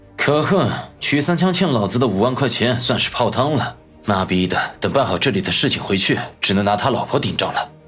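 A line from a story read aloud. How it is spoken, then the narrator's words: Angry muttering. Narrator (Chinese): 嘀咕道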